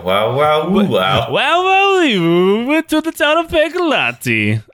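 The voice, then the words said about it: Fake Italian, Borat-style accent. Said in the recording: “I see Borat ... my Borat is exactly the same as my fake Italian accent”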